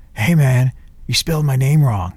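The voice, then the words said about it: Imitates another person's voice. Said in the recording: “my Gregg Allman imitation”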